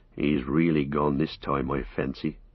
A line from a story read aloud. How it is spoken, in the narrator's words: muttered Sam